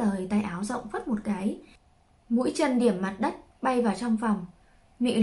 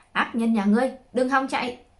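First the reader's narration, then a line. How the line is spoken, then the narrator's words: Sudden fierce shout. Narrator (Vietnamese): Hắn hung tợn, đột nhiên hét lớn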